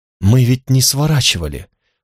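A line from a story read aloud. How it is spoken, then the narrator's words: Dejected voice. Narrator (Russian): упавшим голосом сказала Алана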